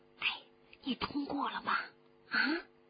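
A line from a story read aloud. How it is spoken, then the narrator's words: Whispered question. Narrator (Chinese): 班上其余的人都悄声地问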